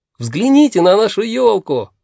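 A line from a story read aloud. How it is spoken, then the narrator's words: Exclamation. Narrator (Russian): воскликнул Мумитролль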